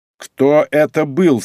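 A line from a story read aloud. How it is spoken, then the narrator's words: Irritated question. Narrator (Russian): спросил раздраженно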